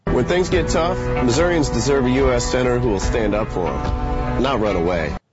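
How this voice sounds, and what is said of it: Southern accent. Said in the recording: “why are you using a fake Southern accent? ... is this his real accent?”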